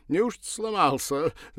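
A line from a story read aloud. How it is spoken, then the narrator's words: Ringing laughter. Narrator (Russian): заливисто расхохотался он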